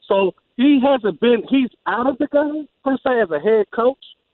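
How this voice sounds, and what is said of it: Usual voice. Nothing is said of it.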